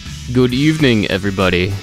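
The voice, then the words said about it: Dracula impression voice. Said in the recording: “That was my Dracula impression.”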